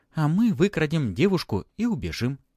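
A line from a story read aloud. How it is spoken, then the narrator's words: Joyful. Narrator (Russian): радостно ... Элла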